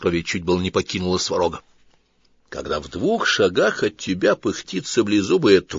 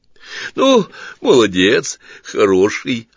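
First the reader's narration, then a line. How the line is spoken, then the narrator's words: Relieved exhale. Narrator (Russian): облегченно выдохнул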